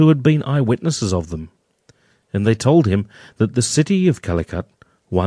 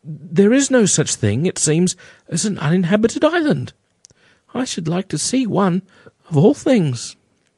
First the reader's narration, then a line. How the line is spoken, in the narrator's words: exclaimed Charles